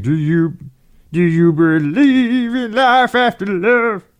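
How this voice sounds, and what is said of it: Poor imitation of a singer, Muppet-like. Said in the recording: “That is not a good Cher impersonation ... I sound a little bit like somebody from the Muppets.”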